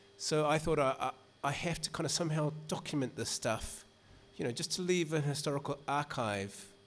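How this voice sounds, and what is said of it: New Zealand accent. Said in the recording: “my accent gives it away. I grew up in New Zealand”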